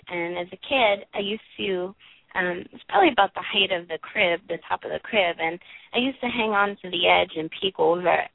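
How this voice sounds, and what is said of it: Brooklyn accent. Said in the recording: “I grew up in Brooklyn, hence the accent.”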